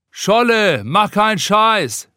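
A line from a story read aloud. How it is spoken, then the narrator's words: Someone calling from above. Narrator (German): ruft einer von oben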